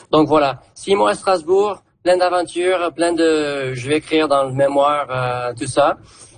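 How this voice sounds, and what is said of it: Southern French accent. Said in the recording (French): “l'accent du coin ... j'entendais un accent du sud”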